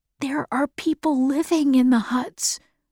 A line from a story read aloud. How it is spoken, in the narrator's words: whispered Jonas